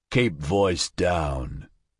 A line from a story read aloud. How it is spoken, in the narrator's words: Norbert rumbled